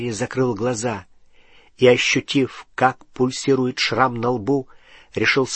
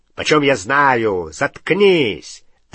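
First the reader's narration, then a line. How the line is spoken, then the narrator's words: Rough bark. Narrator (Russian): рявкнул грубый голос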